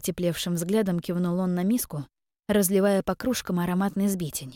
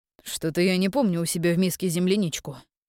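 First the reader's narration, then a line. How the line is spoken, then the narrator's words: Amused snort. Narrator (Russian): хмыкнул Кирьян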